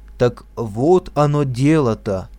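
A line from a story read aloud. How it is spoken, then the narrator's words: Solemn. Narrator (Russian): сказал торжественно Савельич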